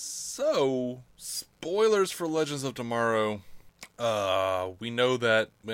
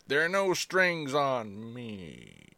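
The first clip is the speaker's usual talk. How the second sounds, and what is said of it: Bad impression of a TV character. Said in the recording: “my bad Snart impersonation”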